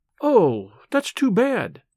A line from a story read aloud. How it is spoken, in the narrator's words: she exclaimed